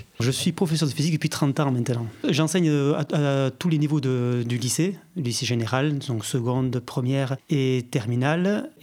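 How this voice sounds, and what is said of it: Southwestern French accent, Basque region. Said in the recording (French): “On va vite entendre par votre accent que vous êtes du sud-ouest. ... Précisément du Pays Basque.”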